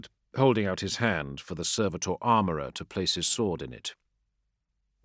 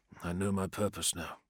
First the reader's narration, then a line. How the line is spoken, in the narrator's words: he muttered to the creature